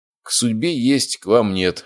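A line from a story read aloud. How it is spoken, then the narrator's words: Snorting. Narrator (Russian): хмыкнул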